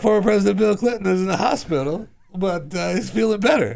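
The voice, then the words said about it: Imitates another person's voice. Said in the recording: “impersonate Jay Leno because this is the voice I hear... That's a total Jay Leno line”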